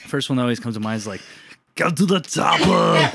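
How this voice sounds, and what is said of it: Throaty Arnold Schwarzenegger impression. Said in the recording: “do an Arnold Schwarzenegger impression ... Just kind of like the throat thing, you know?”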